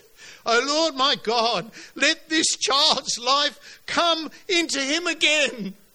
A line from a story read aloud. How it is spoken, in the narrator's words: He cried to the Lord